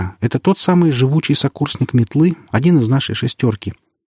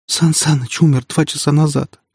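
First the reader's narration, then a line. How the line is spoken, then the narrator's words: Sobbing girl. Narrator (Russian): всхлипнула девушка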